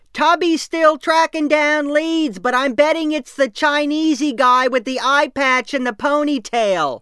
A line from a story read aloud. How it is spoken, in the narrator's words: Cupping her hands to the side of her mouth, Lisa would yell